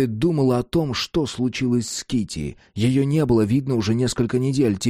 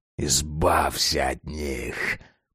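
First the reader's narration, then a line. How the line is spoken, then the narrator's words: Bloody hiss. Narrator (Russian): Прошипела окровавленная пасть Росса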